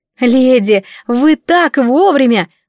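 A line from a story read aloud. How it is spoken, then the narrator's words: Smiling exclamation. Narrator (Russian): воскликнула я, улыбаясь как можно шире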